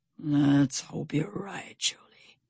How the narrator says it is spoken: Stout Sam whispered

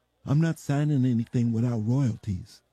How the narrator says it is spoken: he said

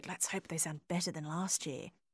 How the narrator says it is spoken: Judy whispered

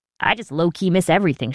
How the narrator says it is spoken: she said

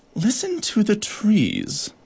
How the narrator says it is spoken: purred the harlequin beetle

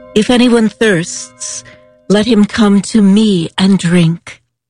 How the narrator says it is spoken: Jesus stood and cried out

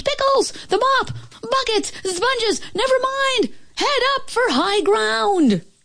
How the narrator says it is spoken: a panicky Pete screamed

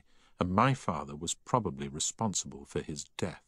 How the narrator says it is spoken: she said softly

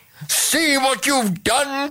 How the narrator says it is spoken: cried the king

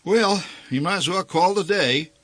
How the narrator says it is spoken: announced the old man

